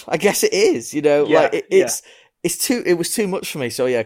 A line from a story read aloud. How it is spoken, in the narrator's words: I cried helplessly